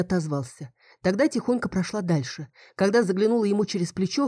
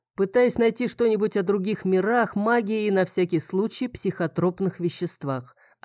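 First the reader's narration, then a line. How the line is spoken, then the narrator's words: Plain. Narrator (Russian): ответил Фил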